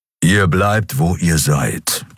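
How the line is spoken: Growled. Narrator (German): knurrte er

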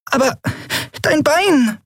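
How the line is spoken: Squeaky. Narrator (German): piepste Nelen

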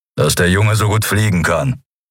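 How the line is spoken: Growling. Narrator (German): knurrte Keru

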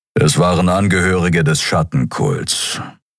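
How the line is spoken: Grumbling. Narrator (German): brummte Kero

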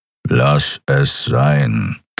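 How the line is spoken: Growling. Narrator (German): knurrte er

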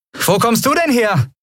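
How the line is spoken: Calling out. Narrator (German): rief Endriel

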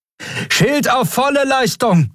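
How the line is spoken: Call with alarmed horn toot. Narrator (German): rief, begleitet von einem alarmierten Tuten ihres Horns

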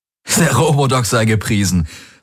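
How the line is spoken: Laughing. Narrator (German): sagte er lachend

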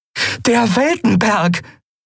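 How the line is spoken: Called out. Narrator (German): rief Endriel

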